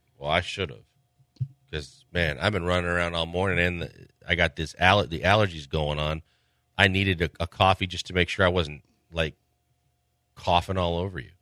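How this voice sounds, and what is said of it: Deeper, congested voice. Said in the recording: “I thought I was going to lose my voice. That's why my voice is kind of deeper today, because... my allergies went haywire overnight, and I was so locked up.”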